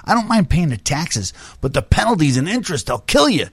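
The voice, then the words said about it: Imitates another person's voice. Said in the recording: “Was that your Hochberg impression right there a little bit ... Kind of a little bit”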